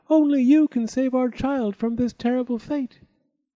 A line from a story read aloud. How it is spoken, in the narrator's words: she cried